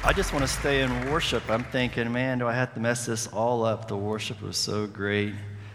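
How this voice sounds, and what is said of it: West Virginia accent. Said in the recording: “I am from Charleston, West Virginia. Sorry for the accent”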